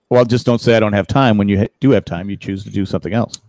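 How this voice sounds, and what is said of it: Stern dad voice. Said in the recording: “That was my dad voice.”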